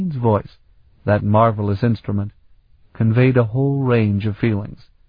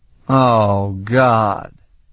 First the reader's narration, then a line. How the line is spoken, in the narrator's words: Sparhawk groaned